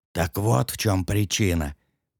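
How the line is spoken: Dreamy whisper. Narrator (Russian): прошептал Корт, как во сне

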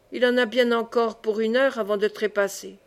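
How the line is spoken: Grumble. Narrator (French): grommela-t-il

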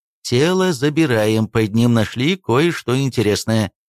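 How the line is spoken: Plain. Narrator (Russian): сказала Матильда Давтяновна

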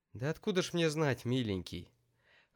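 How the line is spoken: Sighing. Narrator (Russian): вздохнула Лидия Исааковна

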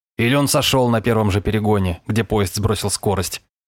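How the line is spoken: Snorted. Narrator (Russian): хмыкнул Варламов

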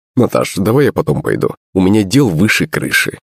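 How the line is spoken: Cold reply. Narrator (Russian): холодно ответил он

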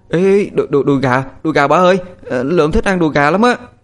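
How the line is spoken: Happy child's shout. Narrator (Vietnamese): Lượm nó hét lên sung sướng

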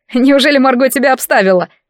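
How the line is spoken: Laughing. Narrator (Russian): рассмеялся Ред

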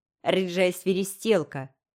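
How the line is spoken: Mocking grumble. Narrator (Russian): проворчал Джинджер издевательски

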